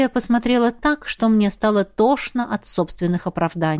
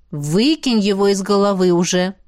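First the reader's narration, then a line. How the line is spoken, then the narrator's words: Stern. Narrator (Russian): произнесла она строго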